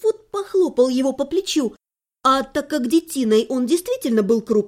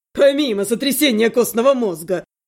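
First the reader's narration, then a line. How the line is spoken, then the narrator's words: Laughing student. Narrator (Russian): засмеялся другой участник студенческих посиделок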